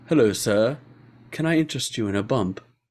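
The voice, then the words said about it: Posh English butler accent. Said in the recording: “a guy with an English accent, not a Cockney English accent... like this like butler”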